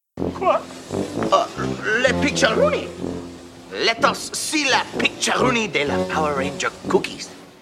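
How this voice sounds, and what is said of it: Terrible exaggerated French accent. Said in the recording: “this French cartoon character with the terrible French accent”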